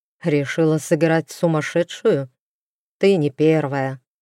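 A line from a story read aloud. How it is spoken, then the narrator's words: Scoffing snort. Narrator (Russian): хмыкнул он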